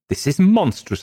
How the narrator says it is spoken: cried

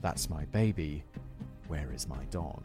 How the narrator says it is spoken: Playing up a fake emotional distress, whispering

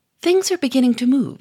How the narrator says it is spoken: said Gouchard cheerfully

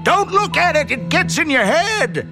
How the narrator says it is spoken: Ham yelled at me

